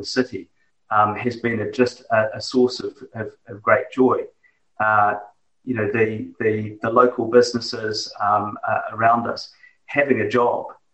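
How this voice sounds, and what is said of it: New Zealand accent. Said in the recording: “as you can probably tell from my accent, are far away. They're in New Zealand”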